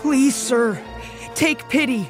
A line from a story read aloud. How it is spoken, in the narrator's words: the boy begged him